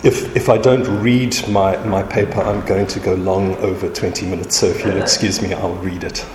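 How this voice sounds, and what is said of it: Flat South African accent. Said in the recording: “my flat South African accent”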